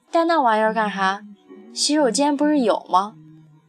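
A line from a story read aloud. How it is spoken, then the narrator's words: Plain. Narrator (Chinese): 大树说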